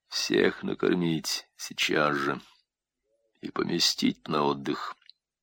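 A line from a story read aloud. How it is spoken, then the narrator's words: Quiet command. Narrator (Russian): распорядился тихим голосом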